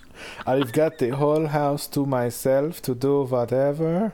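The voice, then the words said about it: Bad put-on German accent. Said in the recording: “bad J-Lo impersonator ... That was my German impression too, which is the worst part.”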